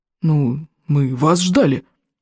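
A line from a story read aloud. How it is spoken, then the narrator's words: Small, somewhat bewildered reply. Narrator (Russian): несколько растерянно отозвался маленький Шандрахайк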